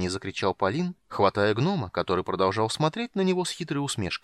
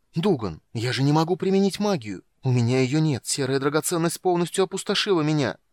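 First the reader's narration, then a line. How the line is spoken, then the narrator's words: Quick whisper in ear. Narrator (Russian): быстро прошептал он на ухо гному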